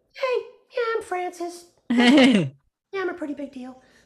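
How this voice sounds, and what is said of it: Puppet character voice, self-important. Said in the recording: “Her voice is a, ... So that's her. She's kind of stuck on herself”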